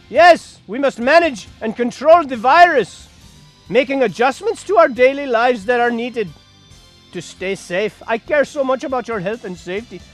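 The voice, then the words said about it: Put-on Indian or Pakistani accent. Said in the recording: “Why am I doing an Indian / Pakistani? ... I don't do a Greek accent.”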